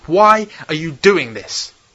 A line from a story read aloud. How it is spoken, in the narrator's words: He shouted at her